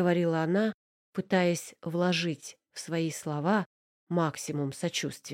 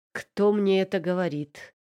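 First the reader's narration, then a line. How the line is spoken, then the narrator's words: Reply with a nasty laugh. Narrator (Russian): ответил Манин, зло хохотнув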